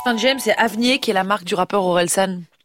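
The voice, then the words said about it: Congested voice from a heavy cold. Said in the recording (French): “son très bel accent, malgré son rhume carabiné ... ça s'entend beaucoup”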